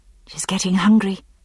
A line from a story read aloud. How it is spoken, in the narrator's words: I whispered to Frank